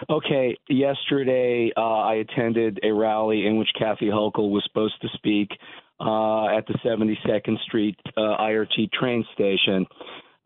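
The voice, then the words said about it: Strained, damaged voice. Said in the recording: “my voice is messed up from screaming from yesterday”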